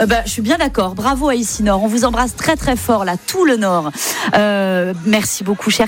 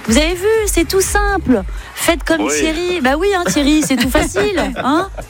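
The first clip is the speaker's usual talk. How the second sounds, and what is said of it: Put-on Belgian French accent. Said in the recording (French): “Je ne sais pas pourquoi j'ai pris l'accent ... belge.”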